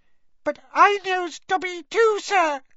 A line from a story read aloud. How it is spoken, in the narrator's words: squeaked the elf